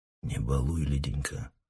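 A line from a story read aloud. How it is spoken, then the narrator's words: Quiet, gentle. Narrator (Russian): тихо вымолвил Соннов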